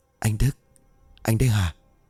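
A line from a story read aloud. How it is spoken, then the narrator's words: Whispered call. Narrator (Vietnamese): Xoan thì thầm gọi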